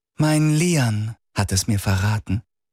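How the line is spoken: Gentle. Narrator (German): sagte die Baronin sanft

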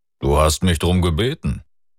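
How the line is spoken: Deep rumbling voice. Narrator (German): sagte ihr Mentor mit seiner unvergleichlichen Brummstimme

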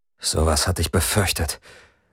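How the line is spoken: Strained, tight voice. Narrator (German): sagte Lian mit gepresster Stimme

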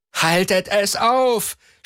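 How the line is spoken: Screamed. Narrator (German): schrie Nejana Gelos

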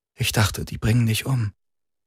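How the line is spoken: Quiet. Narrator (German): sagte leise

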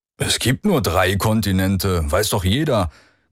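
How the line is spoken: Growling. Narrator (German): knurrte Lorgis

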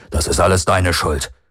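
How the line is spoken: Growled. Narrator (German): knurrte Lorges in Grimals Richtung

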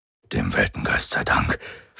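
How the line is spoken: Whispered. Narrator (German): flüsterte

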